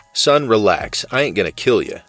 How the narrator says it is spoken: the cop chuckled, his tone reassuring

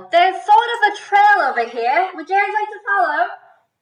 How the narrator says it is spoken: yell

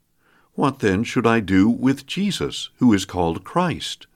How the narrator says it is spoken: Pilate asked

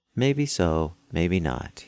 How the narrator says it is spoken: said

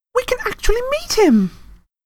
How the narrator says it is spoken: Hermione squealed

